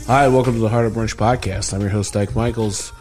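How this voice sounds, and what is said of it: Hoarse, strained voice. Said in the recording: “My voice is a little blown out this week”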